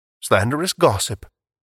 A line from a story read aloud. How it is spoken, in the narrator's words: Meriwether calmly protested